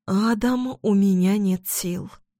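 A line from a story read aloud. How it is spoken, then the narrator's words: Quiet confession. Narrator (Russian): тихо признается Яся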